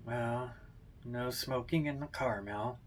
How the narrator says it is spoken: he mutters

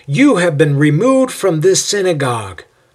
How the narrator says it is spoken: Sosthenes yells out

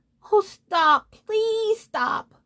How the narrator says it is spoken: cried the moon

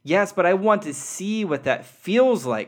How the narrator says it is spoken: cried the little soul

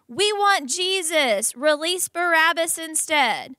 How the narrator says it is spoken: all the people shouted

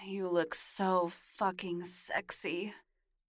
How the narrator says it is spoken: he moaned

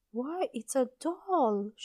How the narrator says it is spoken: she cried

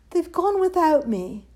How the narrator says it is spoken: And he cried

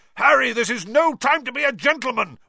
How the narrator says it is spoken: Wood roared

